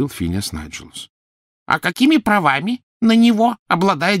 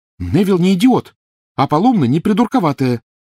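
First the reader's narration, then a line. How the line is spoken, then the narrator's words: Exclaimed. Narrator (Russian): воскликнула Гермиона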